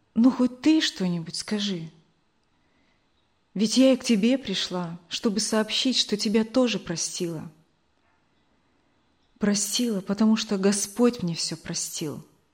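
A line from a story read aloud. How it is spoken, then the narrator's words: Calm. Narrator (Russian): Мария Николаевна спокойно сказала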